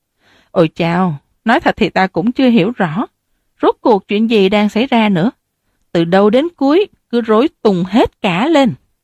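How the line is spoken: Sighing confession. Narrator (Vietnamese): ông ta bèn thở dài bộc bạch

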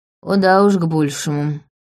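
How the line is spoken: Girl grumbling. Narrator (Russian): проворчала худенькая девочка

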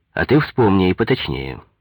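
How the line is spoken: Stern. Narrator (Russian): строго сказал Коньков

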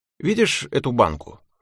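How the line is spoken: Plain. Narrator (Russian): сказал я Тельме

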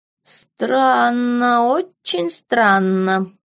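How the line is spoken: Drawling. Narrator (Russian): протянул доктор Клумб

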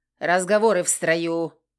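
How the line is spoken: Growled order. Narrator (Russian): рыкнул Крор

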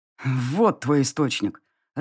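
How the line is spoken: Growl through teeth. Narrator (Russian): рыкнул мужчина сквозь зубы

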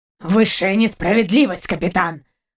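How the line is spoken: Dog's growl. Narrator (Russian): рыкнул пес

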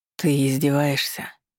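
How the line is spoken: Groaned. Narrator (Russian): простонал Маркус

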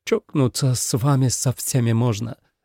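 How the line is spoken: Smiling through tears. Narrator (Russian): сказал Томас, улыбаясь сквозь слезы

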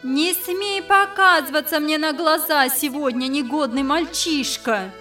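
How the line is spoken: Exasperated shout. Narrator (Russian): Бедная мать, совсем потеряв терпение, закричала вдогонку сыну

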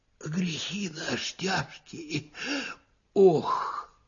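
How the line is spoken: Sighing faint whisper. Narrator (Russian): кто-то вздохнул и даже как будто прошептал

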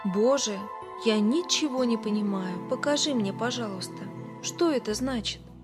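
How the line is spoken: Whisper. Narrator (Russian): Билл прошептал

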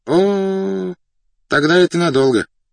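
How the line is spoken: Japanese man's drawl. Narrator (Russian): протянул японец

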